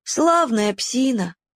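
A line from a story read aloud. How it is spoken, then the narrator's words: Sad. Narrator (Russian): грустно сказал Уголек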